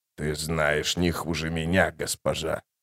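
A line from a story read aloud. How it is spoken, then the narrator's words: Hoarse. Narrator (Russian): прохрипел Тлен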